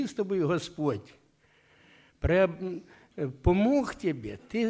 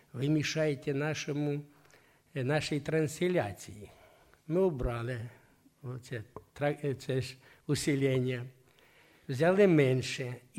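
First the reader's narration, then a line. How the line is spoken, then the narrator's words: Gentle speech. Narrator (Russian): нежно так говорят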